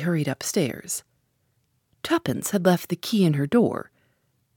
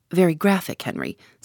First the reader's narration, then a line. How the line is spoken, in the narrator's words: said Tommy